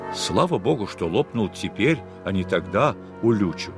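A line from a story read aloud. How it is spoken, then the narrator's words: Plain. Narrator (Russian): сказал я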